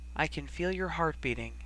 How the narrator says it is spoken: murmured absently

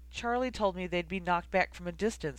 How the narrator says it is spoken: said angrily

